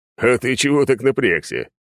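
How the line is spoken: Chuckling. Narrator (Russian): хохотнул Верзилин

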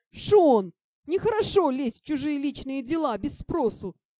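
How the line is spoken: Wailing. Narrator (Russian): взвыла я

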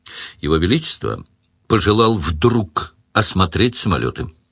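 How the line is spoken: Neutral courtly tone. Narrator (Russian): сказал Сварог нейтральным тоном опытного царедворца

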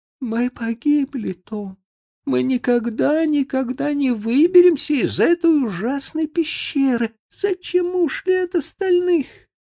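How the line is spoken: Sobbing. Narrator (Russian): Бекки опустилась на землю и зарыдала

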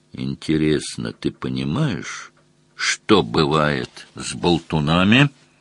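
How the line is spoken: Very quiet, openly threatening. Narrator (Russian): Совсем тихо, с неприкрытой угрозой, Мазур спросил

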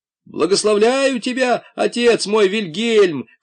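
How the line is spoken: Shouted. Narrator (Russian): крикнул Пашка

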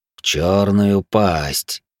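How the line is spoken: Through teeth, silvery. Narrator (Russian): процедил коготь, как серебро

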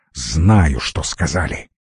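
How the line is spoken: Displeased grumble. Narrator (Russian): недовольно буркнул колдун

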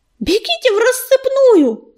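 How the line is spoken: Loud yell. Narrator (Russian): заорал он

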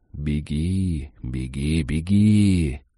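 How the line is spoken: Soft whisper in ear. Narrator (Russian): тихонько нашептывая на ушко

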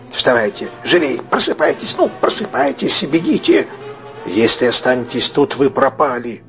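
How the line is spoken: Hoarse urgent command. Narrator (Russian): хрипло скомандовал

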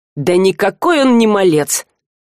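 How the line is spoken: Grumbled. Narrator (Russian): проворчал Альк

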